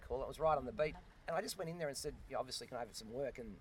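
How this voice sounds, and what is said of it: Australian accent. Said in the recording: “Australian accent.”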